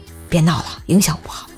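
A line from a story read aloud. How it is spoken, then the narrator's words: Low voice. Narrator (Chinese): 我低声说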